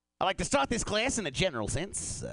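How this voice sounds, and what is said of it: Put-on Australian accent, professor character. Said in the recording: “This is an impression of an Australian jazz professor... An Australian professor of jazz music.”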